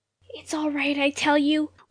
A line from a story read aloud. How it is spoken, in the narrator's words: whispered Jane in anguish